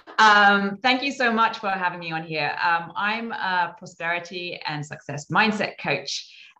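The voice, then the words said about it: British accent. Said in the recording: “our first international guest out of the UK in London ... I hope that my accent can prove the case”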